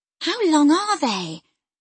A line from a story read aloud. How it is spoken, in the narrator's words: she exclaimed